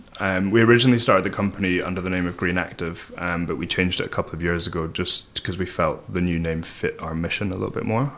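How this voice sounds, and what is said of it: Scottish accent. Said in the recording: “with your accent, it would be easy to be Googling Everybody ... The Scottish twang.”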